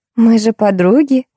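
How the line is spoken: Laughing. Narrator (Russian): засмеялась Тина

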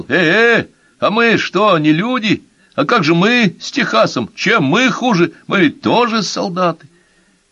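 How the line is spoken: Shouting, soldier. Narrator (Russian): Солдат, которого звали Лошадкой, закричал

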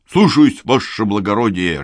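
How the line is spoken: Barked reply. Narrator (Russian): рявкнул Митрич

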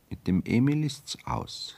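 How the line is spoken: Plain. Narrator (German): sagte sie

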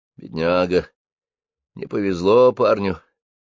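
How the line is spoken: Sigh. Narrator (Russian): вздохнул Марсель

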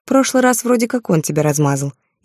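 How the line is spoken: Snide reminder. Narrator (Russian): ехидно напомнила

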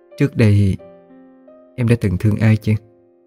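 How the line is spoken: Soft sigh. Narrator (Vietnamese): Nàng khẽ thở dài

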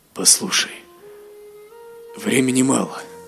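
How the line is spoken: Strained, forced out. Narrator (Russian): выдавил Гилрой

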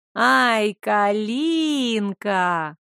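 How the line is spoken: Drawling. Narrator (Russian): протянула она

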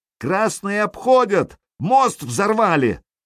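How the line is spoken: Strained shout. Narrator (Russian): крикнул надорванный голос

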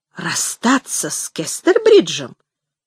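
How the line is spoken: Exclaimed. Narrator (Russian): воскликнула

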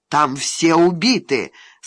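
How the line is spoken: Plain. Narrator (Russian): сказал полковник

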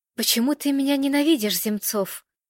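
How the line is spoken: Barely audible question. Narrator (Russian): едва слышно спросила Ирина, почти касаясь губами его уха

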